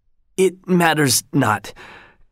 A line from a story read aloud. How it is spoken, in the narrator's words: gasped Kalamake